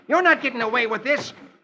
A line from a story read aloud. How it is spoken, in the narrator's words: Dick shouts